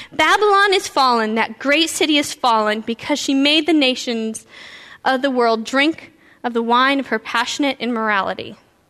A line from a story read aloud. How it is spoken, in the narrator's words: the next angel says, and the next angel followed him through the sky, shouting